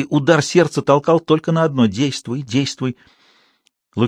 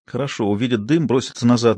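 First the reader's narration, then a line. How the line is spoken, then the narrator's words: Muttering. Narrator (Russian): бормотала Лукерья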